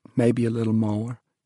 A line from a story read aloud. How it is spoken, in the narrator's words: she added softly